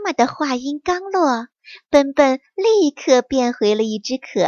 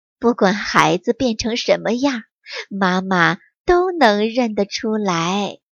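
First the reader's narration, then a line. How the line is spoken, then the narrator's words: Warm smiling mother. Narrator (Chinese): 妈妈笑眯眯地说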